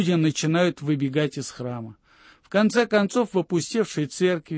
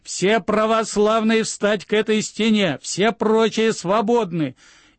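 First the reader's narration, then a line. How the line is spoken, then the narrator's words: Frantic scream. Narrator (Russian): Главарь кричит истошным голосом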